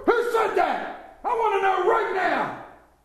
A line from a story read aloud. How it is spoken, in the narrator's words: Brezhnev stood up and roared